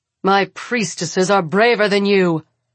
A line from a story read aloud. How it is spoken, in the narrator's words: Ro barks